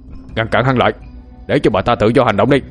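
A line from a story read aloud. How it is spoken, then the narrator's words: Roaring. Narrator (Vietnamese): Thi Vương liền gầm lên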